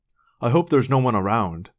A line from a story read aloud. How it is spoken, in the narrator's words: Jake said anxiously